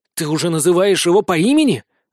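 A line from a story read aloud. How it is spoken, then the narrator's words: Indignant hiss. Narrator (Russian): возмущенно прошипел Стряпчий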